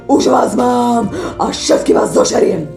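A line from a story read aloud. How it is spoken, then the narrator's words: Growling wolf. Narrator (Slovak): vlk, vrčal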